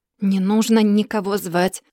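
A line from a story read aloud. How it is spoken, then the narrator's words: Angry whisper. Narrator (Russian): зло прошептал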